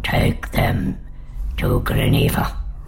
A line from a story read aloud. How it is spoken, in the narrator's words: Rhode said wheezily